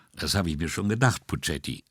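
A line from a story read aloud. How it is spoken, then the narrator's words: Calm. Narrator (German): sagte Brunetti ruhig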